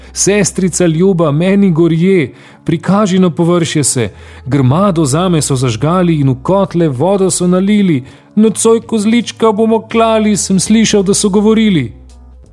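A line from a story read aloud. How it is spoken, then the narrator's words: Young goat calling out. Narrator (Slovenian): kozlička, ki je klical sestrico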